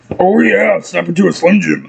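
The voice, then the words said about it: Bad Macho Man Randy Savage impression. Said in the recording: “The worst Macho Man Randy Savage impersonation ever.”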